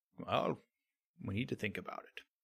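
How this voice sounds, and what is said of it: Morgan Freeman impression. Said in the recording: “my Morgan Freeman impression”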